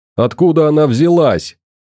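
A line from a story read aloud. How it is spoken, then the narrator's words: Shout. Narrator (Russian): крикнул Семенов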